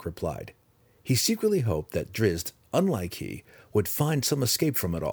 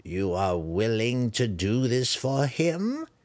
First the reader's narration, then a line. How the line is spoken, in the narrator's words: Malice sneered, eager